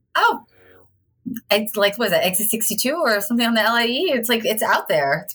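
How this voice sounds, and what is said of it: Long Island accent. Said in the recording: “the Long Island accent.”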